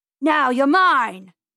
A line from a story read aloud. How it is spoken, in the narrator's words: yelled Mr